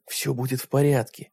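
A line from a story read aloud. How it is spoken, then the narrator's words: Whisper. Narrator (Russian): прошептал Джим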